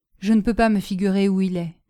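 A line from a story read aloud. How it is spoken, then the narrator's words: Sad. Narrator (French): dit-il tristement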